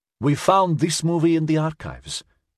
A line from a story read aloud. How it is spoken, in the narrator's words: Svetlana said, smiling brightly